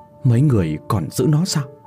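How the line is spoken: Trembling question. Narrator (Vietnamese): Cô ta run run đôi môi rồi hỏi

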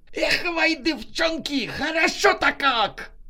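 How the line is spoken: Yelling, elated. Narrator (Russian): Завопил Ашот

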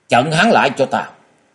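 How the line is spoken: Loud shout. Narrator (Vietnamese): Diệu Thủ Thư Sinh quát lớn

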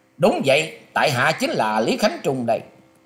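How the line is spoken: Startled, laughing loudly. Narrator (Vietnamese): Y giật nảy mình, cất tiếng cười to nói

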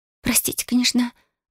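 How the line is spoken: Timid whisper. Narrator (Russian): вжав голову в плечи, прошептала Риза

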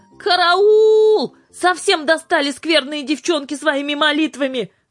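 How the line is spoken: Shouted. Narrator (Russian): закричал Михрютка

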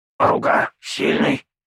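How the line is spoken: Beast growling, inner voice. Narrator (Russian): прорычал у меня в голове зверь

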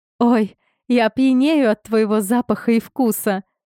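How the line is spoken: Giggling. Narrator (Russian): хихикаю

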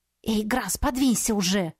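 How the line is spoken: Hissing. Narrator (Russian): зашипела на него

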